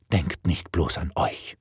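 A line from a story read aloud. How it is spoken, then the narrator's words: Whisper. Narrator (German): flüsterte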